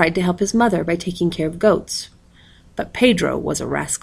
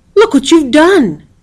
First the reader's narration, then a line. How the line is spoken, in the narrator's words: cried Pedro